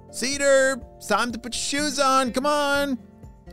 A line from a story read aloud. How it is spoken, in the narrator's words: shouted his mom